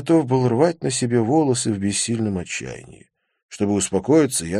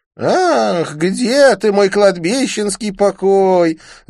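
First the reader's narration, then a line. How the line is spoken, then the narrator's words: Nasal whine. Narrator (Russian): загнусавил Конрад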